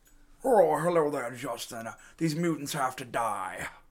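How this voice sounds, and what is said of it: Put-on villain character voice. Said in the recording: “That sounded like a sound clip. That's a good impression.”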